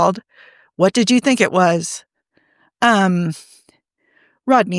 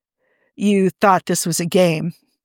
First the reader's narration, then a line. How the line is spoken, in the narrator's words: John said flatly